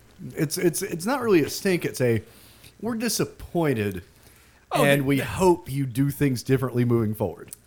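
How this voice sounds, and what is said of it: Disappointed dad voice. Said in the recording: “It's the dad voice.”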